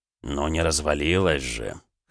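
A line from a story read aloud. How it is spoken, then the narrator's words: Snorting. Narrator (Russian): хмыкнул Райо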